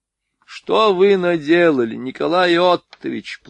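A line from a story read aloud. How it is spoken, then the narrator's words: Whiny tone. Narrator (Russian): плаксивым тоном проговорил Витгифт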